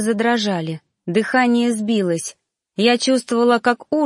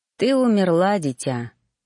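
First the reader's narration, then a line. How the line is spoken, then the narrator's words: Stranger's sigh. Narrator (Russian): вздохнул незнакомец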